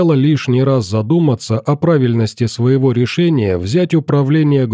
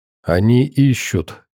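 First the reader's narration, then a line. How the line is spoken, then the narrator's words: Quiet with slight smirk. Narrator (Russian): тихо проговорила ученая и легко усмехнулась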